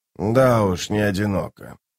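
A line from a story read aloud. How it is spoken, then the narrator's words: Bird grumbling. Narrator (Russian): проворчал скворец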